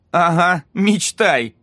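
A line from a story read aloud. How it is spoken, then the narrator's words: Laughing. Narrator (Russian): рассмеялся Эмери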